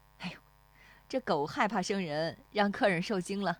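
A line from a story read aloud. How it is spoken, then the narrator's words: Apologetic laughing woman. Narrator (Chinese): 那妇女又对石丽华笑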